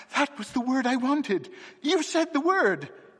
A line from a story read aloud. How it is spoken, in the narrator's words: he cried